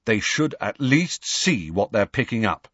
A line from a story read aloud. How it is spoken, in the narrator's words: he said firmly